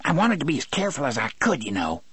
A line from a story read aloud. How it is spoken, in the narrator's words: Harry said to Brutal in a thin, scolding voice